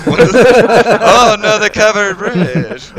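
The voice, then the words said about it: Put-on Mormon accent. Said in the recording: “That's my Mormon accent ... I did not know that Mormons had an accent. ... But he nailed it.”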